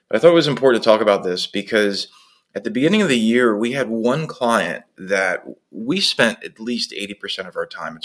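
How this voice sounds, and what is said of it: Rough, unwell-sounding voice. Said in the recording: “I apologize for my voice. Definitely coming down with something here.”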